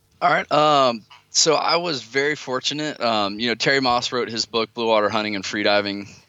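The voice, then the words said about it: Speaks with a noticeable accent. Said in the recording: “you've got a fantastic accent.”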